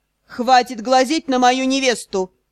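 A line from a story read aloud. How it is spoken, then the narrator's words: Growling undertone. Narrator (Russian): В голосе отчетливо расслышались рычащие нотки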